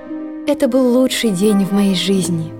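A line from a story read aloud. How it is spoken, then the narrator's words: Sigh. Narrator (Russian): только и вздохнула она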